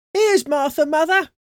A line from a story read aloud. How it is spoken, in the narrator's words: cried the two young Cratchits